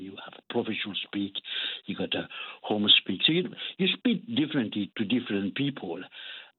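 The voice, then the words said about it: French accent in English. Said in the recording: “quite clearly, you're French ... your accent”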